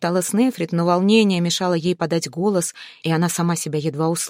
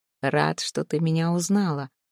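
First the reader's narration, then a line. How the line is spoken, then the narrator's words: Low confiding voice. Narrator (Russian): вполголоса доверительно ответил парень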